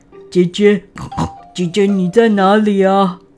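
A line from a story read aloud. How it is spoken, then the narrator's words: Deliberate feigned sigh. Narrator (Chinese): 悟空故意叹口气说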